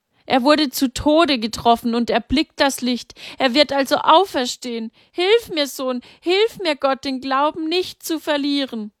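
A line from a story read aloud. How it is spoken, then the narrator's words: Desperate calling out. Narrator (German): rief Maria verzweifelt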